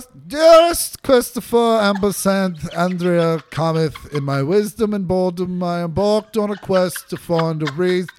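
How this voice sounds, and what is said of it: Snooty put-on British accent. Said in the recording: “please read this in a snooty British accent for the atmosphere”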